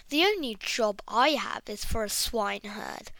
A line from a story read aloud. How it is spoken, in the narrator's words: replied the emperor